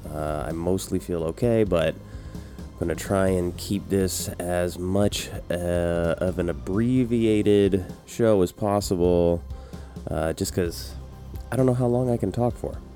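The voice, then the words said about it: Congested, sick-sounding voice. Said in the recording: “I'm still dealing with COVID. I'm sure you can hear it in my voice. It isn't great. ... It's still hanging on in the sinuses.”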